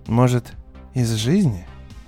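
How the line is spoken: Gentle remark. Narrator (Russian): Мягко заметил Лейтон

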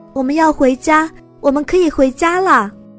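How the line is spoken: Joyful, loud. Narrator (Chinese): 两个人牵手在大街上微笑欢呼，向注视他们的人大声说

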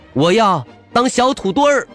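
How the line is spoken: Loud voice. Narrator (Chinese): 他大声说

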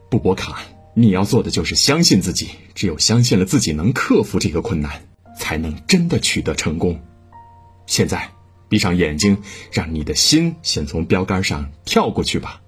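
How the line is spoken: Sudden stern shout. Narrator (Chinese): 教练突然厉声斥喝

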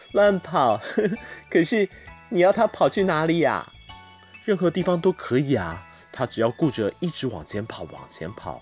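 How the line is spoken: Laughing heartily. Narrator (Chinese): 我的这位小朋友又忍不住大笑起来，说

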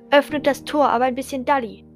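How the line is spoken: Calling out. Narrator (German): rief er

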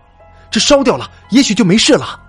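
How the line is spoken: Loud. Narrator (Chinese): 江鹏大声说

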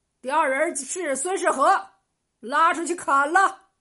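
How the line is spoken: Loud stern bark. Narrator (Chinese): 官差大声喝道

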